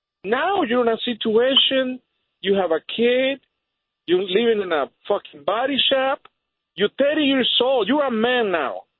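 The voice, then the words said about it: Speaks English with an accent. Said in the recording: “You don't have an accent. I have an accent.”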